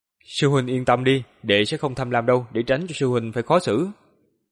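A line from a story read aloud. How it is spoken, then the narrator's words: Smiling, subtly warning. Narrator (Vietnamese): Lữ Lạc mỉm cười, trong lời nói có ý tứ nhắc nhở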